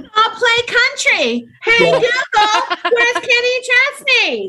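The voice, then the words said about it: Shouting. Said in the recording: “I'm shouting at you”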